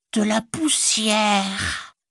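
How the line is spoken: Hissed. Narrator (French): siffla-t-il

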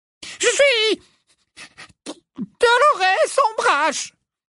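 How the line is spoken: Shrill, terrified answer. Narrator (French): répondit-elle d'une voix rendue suraiguë par la terreur

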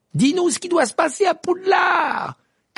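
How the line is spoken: Shouting. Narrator (French): cria Fred à la fenêtre

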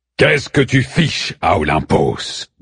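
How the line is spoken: Grumble. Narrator (French): grommelle Zeus

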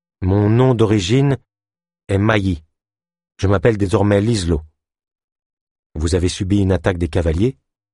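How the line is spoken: Plain. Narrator (French): demanda Delune

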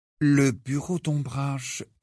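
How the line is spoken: Low-voiced reply. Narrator (French): répondit Harry à mi-voix

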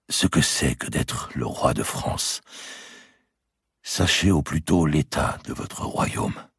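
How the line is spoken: Murmured. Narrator (French): murmura-t-il

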